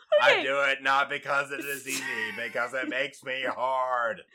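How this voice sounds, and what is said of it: Imitates another person's voice. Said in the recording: “my JFK accent”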